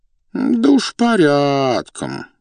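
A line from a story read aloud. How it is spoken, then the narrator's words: Drawled. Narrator (Russian): протянул князь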